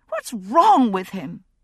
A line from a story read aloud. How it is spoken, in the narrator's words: she cried